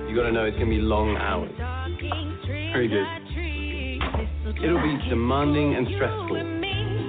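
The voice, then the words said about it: Man speaking with an accent. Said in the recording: “Did I hear an accent in there from that gentleman? ... because it's an accent.”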